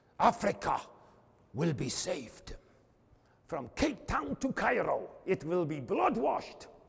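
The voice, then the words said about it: Put-on German-English accent. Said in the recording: “he had this English-German accent.”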